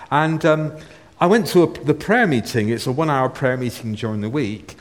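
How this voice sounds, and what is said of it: Bristol English accent. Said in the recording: “I'm from Bristol area, so you always pick up my accent when I speak to you”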